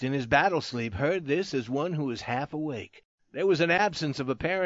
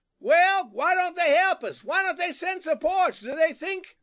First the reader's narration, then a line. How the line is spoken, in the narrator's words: Suddenly another shouted